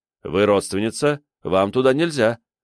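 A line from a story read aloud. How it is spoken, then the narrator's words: Stern priest. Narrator (Russian): строго сказал священник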